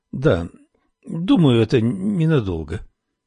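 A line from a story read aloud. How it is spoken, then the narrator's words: Uncertain. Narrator (Russian): неуверенно произнесла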